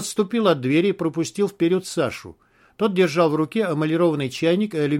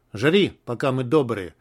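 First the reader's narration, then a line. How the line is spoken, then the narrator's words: Grumbling. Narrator (Russian): пробурчал Таха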